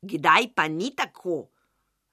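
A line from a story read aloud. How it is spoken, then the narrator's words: Shrieking broom. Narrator (Slovenian): je zavreščala metla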